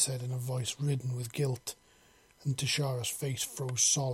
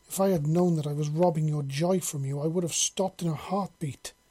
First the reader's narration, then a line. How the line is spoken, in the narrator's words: Tashara wailed